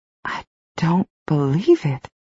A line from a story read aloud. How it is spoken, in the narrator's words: Val murmured repeatedly